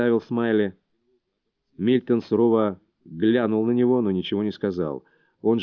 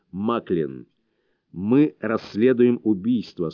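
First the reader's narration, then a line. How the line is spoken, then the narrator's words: Stern. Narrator (Russian): строго произнес он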